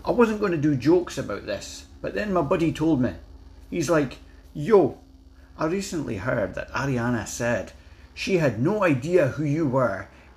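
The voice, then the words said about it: Put-on Scottish accent. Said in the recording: “I'm going to do it in my best Scottish accent.”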